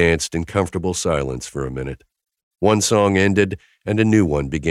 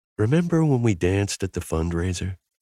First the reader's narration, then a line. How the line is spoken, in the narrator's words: whispered in my ear